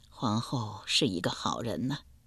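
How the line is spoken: Sighing. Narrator (Chinese): 甘昭吉叹道

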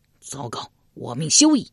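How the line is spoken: Loud shout. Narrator (Chinese): 忽听一将高声叫道

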